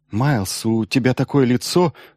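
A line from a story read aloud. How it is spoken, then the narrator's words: Agitated. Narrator (Russian): взволнованно сказала Елена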